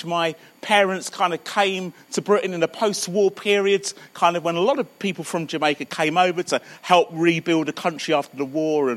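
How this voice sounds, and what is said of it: Southern English accent. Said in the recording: “You can probably hear that my accent's a little further south, so I'm sort of born and brought up in Croydon.”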